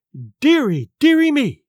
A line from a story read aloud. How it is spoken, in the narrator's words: cried my mother